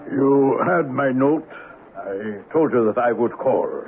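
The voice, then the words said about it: German accent. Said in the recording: “He spoke with a German accent”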